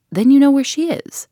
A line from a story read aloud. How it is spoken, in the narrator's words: cried Tuppence